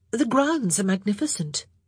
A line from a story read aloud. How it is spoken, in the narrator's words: she added hastily